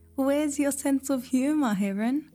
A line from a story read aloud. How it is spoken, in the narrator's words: Fox squealed, still laughing at her own silly trick